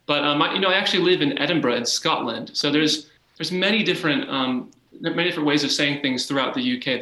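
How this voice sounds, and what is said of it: American accent. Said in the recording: “I still have an American accent. Maybe it's a little more pronounced. My friends back home say, oh, you definitely have a British accent, but it's definitely not British.”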